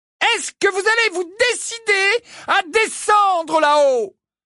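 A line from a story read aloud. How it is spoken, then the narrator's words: Roar. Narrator (French): rugit Mrs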